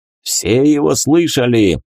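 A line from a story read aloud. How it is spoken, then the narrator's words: Giant's shout breaking silence. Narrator (Russian): крикнул рыжий гигант, нарушая опустившуюся тишину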